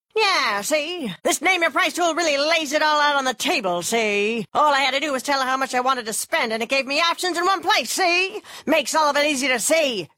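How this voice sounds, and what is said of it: 1930s gangster voice impression. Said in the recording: “my impression of a 1930s gangster”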